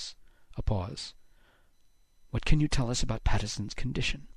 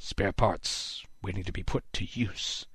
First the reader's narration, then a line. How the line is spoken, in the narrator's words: Haddix muttered